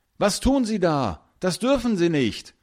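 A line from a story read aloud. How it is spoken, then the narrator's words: Calling out. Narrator (German): ruft Finn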